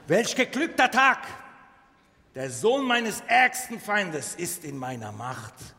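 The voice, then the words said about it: Put-on Turkish accent. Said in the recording (German): “türkische Akzent zu verwenden”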